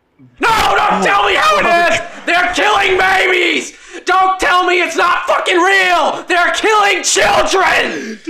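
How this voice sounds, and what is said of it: Loud, frantic ranting imitation of another person. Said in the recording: “That's what Alex Jones sounds like. ... He's just so loud and so fucking crazy and outrageous.”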